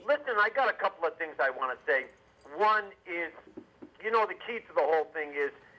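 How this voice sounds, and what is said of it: Boston accent. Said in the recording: “I'm from Boston ... I remember your accent”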